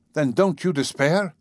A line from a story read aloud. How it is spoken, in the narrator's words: I cried irritably